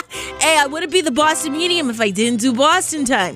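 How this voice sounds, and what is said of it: Exaggerated Boston accent. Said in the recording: “I gotta say it in the Boston accent”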